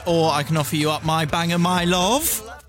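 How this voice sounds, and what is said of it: Put-on Bristolian accent. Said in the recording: “That was my Bristolian accent.”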